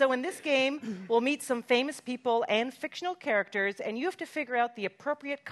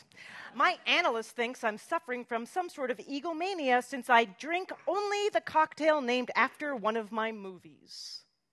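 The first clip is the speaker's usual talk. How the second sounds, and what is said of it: Imitates another person's voice. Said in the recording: “Amazing accent.”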